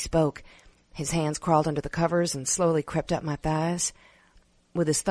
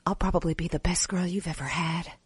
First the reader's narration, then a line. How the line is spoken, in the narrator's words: I whispered